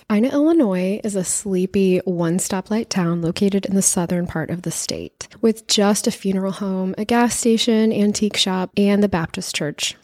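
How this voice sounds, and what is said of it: Rough, husky sick-sounding voice. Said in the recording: “I have been sick, so my voice sounds a little burly.”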